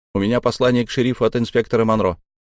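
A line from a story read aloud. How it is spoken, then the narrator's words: Rapid patter. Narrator (Russian): протараторил я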